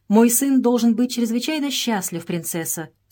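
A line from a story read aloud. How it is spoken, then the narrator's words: Plain. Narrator (Russian): сказал он ей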